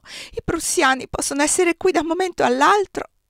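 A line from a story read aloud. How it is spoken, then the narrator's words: Sobbing outburst. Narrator (Italian): non buttò fuori altro che singhiozzi e da ultimo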